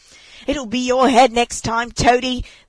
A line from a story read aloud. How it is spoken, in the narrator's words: they called out to him